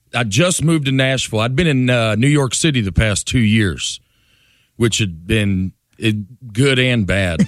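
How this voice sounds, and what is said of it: Noticeable Southern US accent. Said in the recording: “My accent catches some strays in New York City ... I'm like, y'all have a good afternoon”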